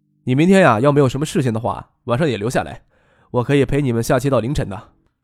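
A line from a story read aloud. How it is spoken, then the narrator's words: Faint smile, calm. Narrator (Chinese): 张克淡淡的一笑，跟梁江说道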